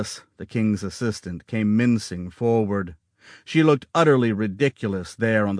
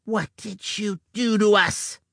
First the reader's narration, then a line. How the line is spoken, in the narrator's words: hissing